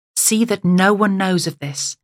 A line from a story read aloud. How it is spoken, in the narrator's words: Jesus sternly ordered them